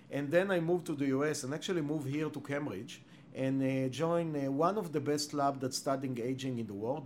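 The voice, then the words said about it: Israeli-accented English. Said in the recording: “as you can hear from my accent, I'm not a Native American. ... You have you have an accent? ... A bit. ... I was born and raised in Israel”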